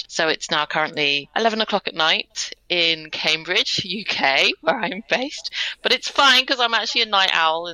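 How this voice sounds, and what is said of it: British English accent. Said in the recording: “if you can't tell from my accent, I'm a Brit”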